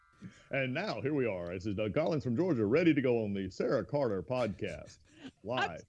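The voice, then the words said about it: Polished radio announcer voice. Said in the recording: “you have the best radio voice of anyone in Congress”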